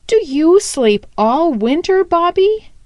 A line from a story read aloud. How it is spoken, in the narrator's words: he asked eagerly